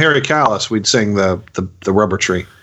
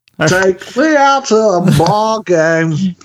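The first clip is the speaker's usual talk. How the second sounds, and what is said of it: Will Ferrell's Harry Carey impression. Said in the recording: “doing an impression of Will Ferrell doing an impression of Harry Carey”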